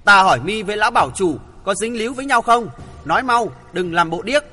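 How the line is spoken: Loud threatening shout. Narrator (Vietnamese): Thượng Chí quát lớn uy hiếp

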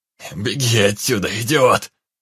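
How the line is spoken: Hoarse shout. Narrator (Russian): хрипло крикнул незнакомец

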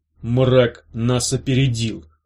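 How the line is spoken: Through gritted teeth. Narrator (Russian): сквозь зубы сказал Серх

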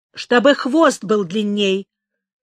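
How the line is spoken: Angry reply. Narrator (Russian): сердито ответил Гавса

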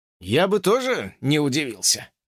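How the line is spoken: Calm reply. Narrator (Russian): спокойно ответил Уилбур

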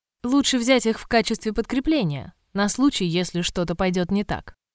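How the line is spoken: Plain. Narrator (Russian): сказал Сэм

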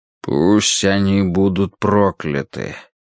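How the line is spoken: Hollow, muffled. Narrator (Russian): глухо повторил Соломин

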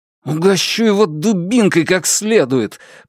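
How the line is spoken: Through clenched teeth. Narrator (Russian): процедил Дзян сквозь стиснутые зубы

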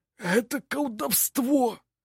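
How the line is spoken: Hoarse wheezing. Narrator (Russian): хрипел один из них

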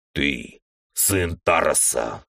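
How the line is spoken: Near growl. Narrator (Russian): почти прорычал человек

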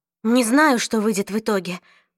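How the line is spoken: Whispered. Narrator (Russian): прошептала Клэри

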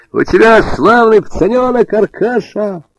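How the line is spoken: Cheerful shouting. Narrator (Russian): весело прокричал он

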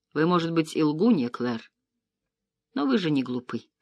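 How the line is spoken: Hoarse. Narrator (Russian): хрипло произнес он

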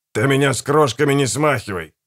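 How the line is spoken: Snapping. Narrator (Russian): огрызнулся Гегель

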